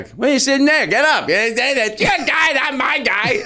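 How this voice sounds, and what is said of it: Imitates another person's voice. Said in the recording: “What was that voice? ... You sounded like Jimmy Dore. You sounded like Jimmy Dore.”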